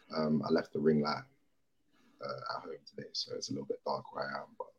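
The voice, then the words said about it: Croaky voice. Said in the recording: “my voice is a little bit croaky today because uh, obviously France had France had me screaming a little bit”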